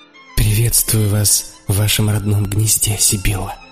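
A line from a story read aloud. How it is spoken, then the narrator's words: Soft and tender. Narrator (Russian): сказал я тихо и нежно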